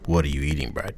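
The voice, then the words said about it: Very deep voice. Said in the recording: “in your deepest voice,”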